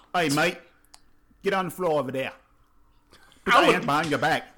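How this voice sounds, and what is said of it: Put-on Australian accent. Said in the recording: “do an Australian accent”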